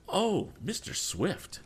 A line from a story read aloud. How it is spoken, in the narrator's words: exclaimed the girl with a blush